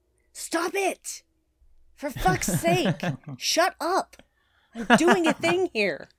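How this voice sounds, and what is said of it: Shouting angrily. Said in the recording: “I'm shouting at my window.”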